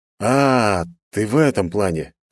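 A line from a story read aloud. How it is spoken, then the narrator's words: Confused drawl. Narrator (Russian): растерянно протянул я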